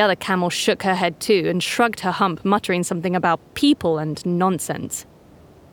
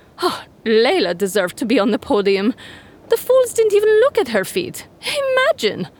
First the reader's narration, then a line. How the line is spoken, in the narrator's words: a camel snort and say to another